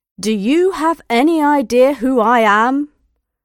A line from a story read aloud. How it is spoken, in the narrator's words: He asked loudly so that the passengers behind him could hear